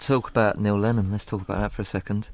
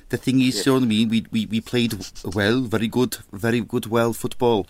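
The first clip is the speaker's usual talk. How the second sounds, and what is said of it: Mock French accent. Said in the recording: “He did his French accent”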